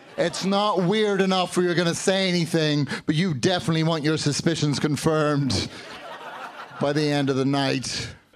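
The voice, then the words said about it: Mild Northern Irish and London accent. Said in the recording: “I grew up in Northern Ireland and London, so now I have this stupid friggin' accent... my accent now, it's just thick enough to be annoying, but not enough to be charming”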